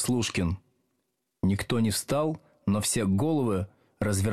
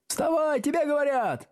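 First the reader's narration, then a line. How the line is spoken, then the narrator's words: Several voices shouting obligingly. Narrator (Russian): услужливо закричали несколько голосов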